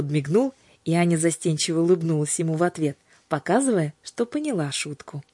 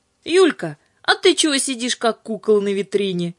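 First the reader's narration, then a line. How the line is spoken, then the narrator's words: Cheerful question, father. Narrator (Russian): весело спросил папа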